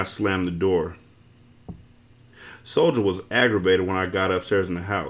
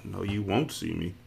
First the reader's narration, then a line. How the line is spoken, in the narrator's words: I muttered back